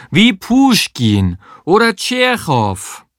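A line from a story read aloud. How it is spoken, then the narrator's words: Exaggerated Russian accent call. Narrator (German): rief sie, so russisch sie konnte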